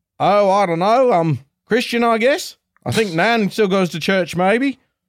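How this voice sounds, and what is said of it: Poor put-on Australian accent. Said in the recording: “That's my Australian dialect for you ... That's terrible ... my brain just decided it needed to be Aussie”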